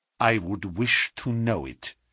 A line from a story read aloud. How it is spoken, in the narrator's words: said the Prussian, grimly